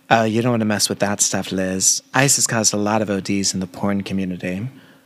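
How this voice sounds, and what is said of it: Imitates a TV character's accent, poorly. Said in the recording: “I want to do Jenna. It's the only accent that I can kind of do and it's still terrible.”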